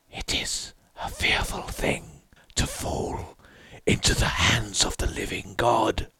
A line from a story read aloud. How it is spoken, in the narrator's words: I heard the king in yellow whispering to my soul